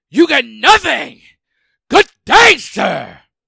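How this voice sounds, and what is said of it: Imitates another person's voice. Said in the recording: “I will do the impersonation ... Al Pacino”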